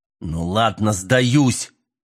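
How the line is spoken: Irritated. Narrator (Russian): раздраженно сказал Мэлори

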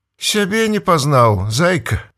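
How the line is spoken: Smiling. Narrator (Belarusian): усміхнулася Таня

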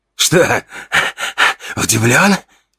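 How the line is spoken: Hoarse wheeze from above. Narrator (Russian): сипел он сверху

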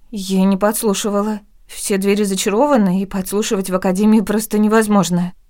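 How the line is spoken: Frightened report. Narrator (Russian): испуганно доложила она

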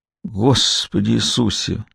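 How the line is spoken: Sigh. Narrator (Russian): вздохнула Уинни

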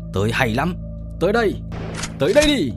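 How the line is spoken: Excited fearless roar. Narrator (Vietnamese): không những không hề e sợ mà còn phấn khích lạ thường, lại gầm to

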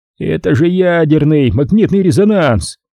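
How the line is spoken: Yelling. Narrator (Russian): вопит он

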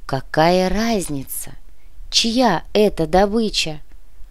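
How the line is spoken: Insinuating, silky remark. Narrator (Russian): Вкрадчиво заметил комиссар

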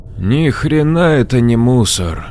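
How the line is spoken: Slow drawl. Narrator (Russian): не спеша протянул Джек

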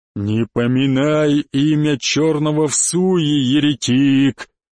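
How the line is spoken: Deep bass voice. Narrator (Russian): пробасил черный

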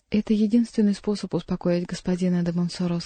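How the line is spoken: Plain. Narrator (Russian): сказала Диана

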